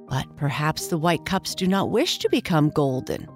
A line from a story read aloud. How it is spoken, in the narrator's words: said her sisters